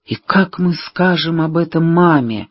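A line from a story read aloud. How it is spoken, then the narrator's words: Muffled mumbling. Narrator (Russian): бормотал Вим, уткнувшись в плечо сестры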